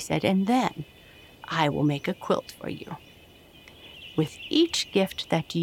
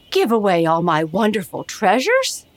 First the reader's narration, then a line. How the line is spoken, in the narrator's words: cried the king